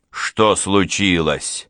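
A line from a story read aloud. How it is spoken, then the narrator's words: Sudden bark. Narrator (Russian): рявкнул вдруг он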